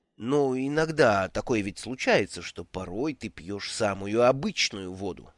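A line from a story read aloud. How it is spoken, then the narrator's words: Plain. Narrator (Russian): спросил Брута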